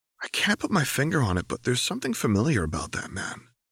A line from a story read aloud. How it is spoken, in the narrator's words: Harry whispered